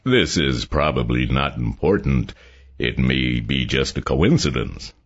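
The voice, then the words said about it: Harvard accent. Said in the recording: “Jackson began in a Harvard accent”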